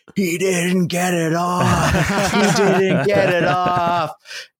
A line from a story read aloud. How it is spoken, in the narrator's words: screaming